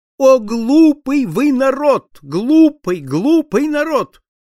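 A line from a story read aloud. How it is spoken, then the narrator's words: High trembling shout. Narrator (Russian): крикнул он высоким дрожащим голосом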